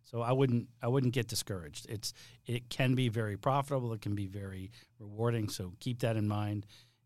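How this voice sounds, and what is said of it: Slight Boston accent. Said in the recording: “that Boston accent coming through a little bit every now and then”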